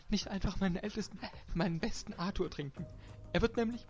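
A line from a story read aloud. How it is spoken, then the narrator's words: Stammering. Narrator (German): stammelte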